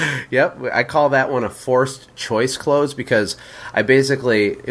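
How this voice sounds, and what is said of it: Usual voice. Nothing is said of it.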